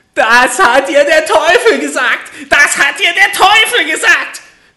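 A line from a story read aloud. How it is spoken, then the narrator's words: Little man's furious scream. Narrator (German): schrie das Männlein vor Zorn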